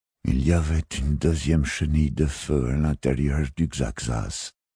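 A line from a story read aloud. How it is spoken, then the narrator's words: Murmured. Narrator (French): murmura-t-il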